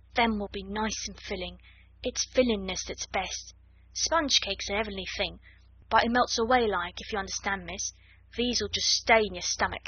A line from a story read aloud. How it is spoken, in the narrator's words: she murmured